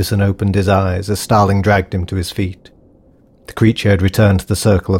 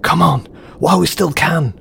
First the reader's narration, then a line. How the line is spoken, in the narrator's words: He yelled